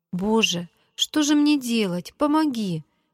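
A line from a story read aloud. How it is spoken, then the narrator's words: Pleading girl. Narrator (Russian): взмолилась девочка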